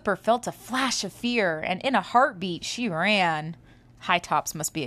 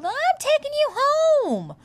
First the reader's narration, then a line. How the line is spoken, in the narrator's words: High Tops yelled